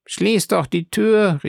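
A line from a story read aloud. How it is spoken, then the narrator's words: Called out. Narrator (German): rief die Carconte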